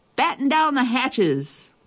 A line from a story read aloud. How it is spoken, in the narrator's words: Everybody yelling